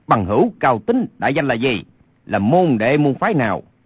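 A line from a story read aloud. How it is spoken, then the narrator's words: Angry shout. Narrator (Vietnamese): Lê Sinh thấy tình hình như thế, lửa giận bốc lên quát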